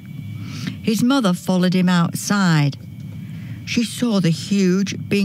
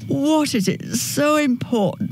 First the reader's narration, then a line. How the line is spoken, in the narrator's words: yawned